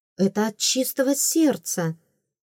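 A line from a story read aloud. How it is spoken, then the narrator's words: Sharp exclamation. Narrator (Russian): воскликнула я чуть резче, чем следовало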